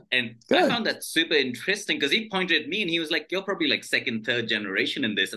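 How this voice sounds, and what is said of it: British BBC English accent. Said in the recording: “Your accent put you 100 years ahead of everybody. Just the BBC English.”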